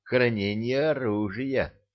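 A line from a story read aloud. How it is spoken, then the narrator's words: Timid suggestion. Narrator (Russian): робко предположил Никита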